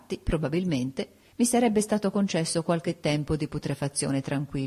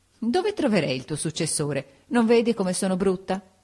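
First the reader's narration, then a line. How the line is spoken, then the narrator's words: Laughing after crying, asking. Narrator (Italian): Mitigato il pianto, subito ridendo mi domandò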